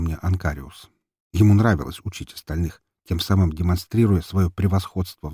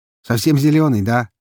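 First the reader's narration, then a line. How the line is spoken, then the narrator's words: Amused snort. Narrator (Russian): хмыкнул он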